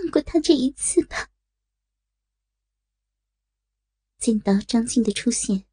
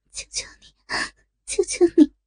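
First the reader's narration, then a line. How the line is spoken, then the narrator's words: Trembling, miserable. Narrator (Chinese): 少女芳心凄苦无比，颤声道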